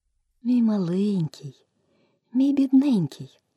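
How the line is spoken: Tender speech. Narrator (Ukrainian): лагідно заговорила Аліса

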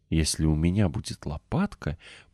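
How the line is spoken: Whispered. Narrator (Russian): прошептала

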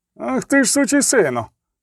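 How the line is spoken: Shout. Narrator (Ukrainian): крикнув Вітіх

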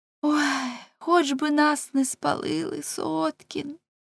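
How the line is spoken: Sobbing, trembling girl. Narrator (Ukrainian): Дівчина, схлипуючи і здригаючись, сказала

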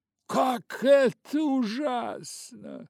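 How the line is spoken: Exclaimed. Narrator (Russian): воскликнула леди Агата

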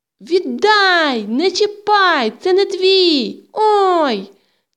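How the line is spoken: Sudden plaintive cry. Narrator (Ukrainian): Несподівано жалібно закричала Тома

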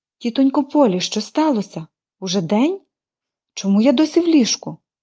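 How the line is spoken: Exclaiming. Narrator (Ukrainian): вигукнула вона

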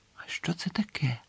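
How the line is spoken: Quiet question. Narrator (Ukrainian): тихо запитав Гаррі

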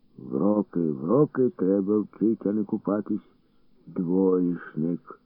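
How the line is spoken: Grumbling, groaning old man. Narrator (Ukrainian): Буркнув дід і, крекчучи

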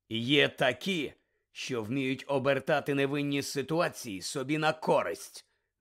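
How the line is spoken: Curt, threatening. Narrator (Ukrainian): відрубав Муді погрозливим тоном

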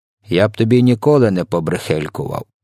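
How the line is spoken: Grumbled. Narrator (Ukrainian): буркнув він

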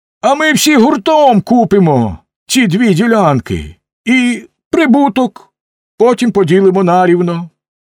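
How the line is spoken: Exclaiming. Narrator (Ukrainian): хтось інший вигукнув

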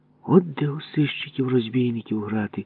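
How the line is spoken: Envious whisper. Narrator (Ukrainian): заздро шепнув мені Ява

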